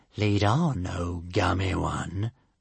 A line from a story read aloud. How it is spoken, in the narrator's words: drawled the Stormfly